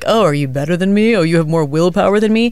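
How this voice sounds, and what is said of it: Inaccurate mocking impression of co-host. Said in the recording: “Is that an impression of me you're doing? ... Yes, but clearly not accurate.”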